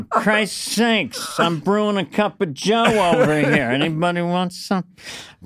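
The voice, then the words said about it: Dennis Miller impression. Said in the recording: “your impression of Dennis Miller as a drip coffee maker”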